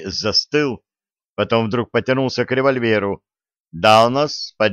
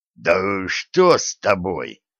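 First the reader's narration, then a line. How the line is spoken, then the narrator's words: Giant's hoarse rasp. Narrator (Russian): прохрипел гигант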